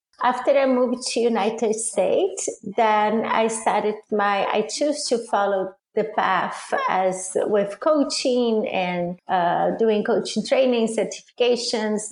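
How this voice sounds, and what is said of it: Foreign accent. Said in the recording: “my accent, and because I am a foreign”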